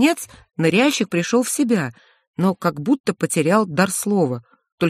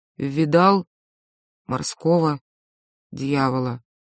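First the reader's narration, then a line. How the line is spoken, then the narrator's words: Hollow, dull voice. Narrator (Russian): Ныряльщик сказал глухим голосом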